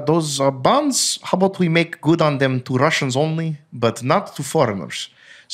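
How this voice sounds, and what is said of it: Russian accent. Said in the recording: “that's a good Russian accent, right? ... That's pretty good.”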